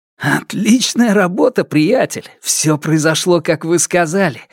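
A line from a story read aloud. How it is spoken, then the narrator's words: Hurried excited whisper. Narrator (Russian): зашептал он торопливо, с трудом сдерживая возбуждение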